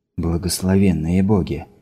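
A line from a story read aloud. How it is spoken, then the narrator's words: Awed whisper. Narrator (Russian): прошептал Синклер, осознавший грандиозность проекта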